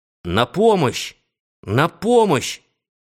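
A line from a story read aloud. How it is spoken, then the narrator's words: Shouting for help. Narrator (Russian): закричал я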